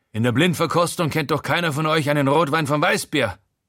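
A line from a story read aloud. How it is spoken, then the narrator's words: Gruff blustering. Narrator (German): poltert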